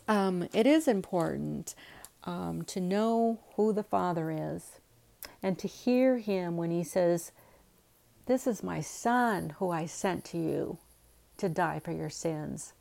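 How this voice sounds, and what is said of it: Tired, quiet, low voice. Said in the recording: “I'm really tired today. I know I sounded a little tired at the beginning of the podcast. Sometimes I have to be quiet ... my voice is kind of a little bit low at times.”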